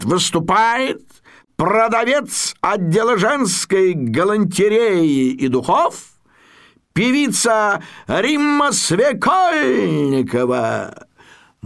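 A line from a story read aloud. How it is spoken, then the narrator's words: Formal announcer voice. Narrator (Russian): Ведущий программы, такой манекеноподобный гражданин Масленков, таким специально объявлятельным голосом говорит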